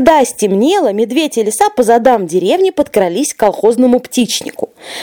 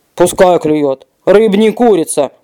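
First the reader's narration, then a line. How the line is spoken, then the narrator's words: Grumbling bear. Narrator (Russian): проворчал медведь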